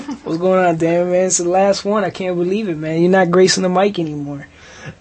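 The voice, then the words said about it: New York-sounding twang accent. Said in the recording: “Not from New York ... where the heck does that accent come, that twang?”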